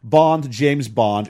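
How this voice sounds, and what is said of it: James Bond impression, English accent. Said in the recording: “give him an English accent, let him try, or Canadian Bond”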